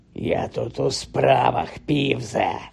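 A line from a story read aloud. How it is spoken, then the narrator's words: Hoarse rasp. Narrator (Ukrainian): прохрипів Гаррі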